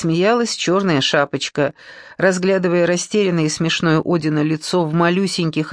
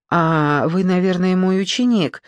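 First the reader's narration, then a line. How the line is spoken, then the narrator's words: Uncertain question. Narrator (Russian): неуверенно спросила она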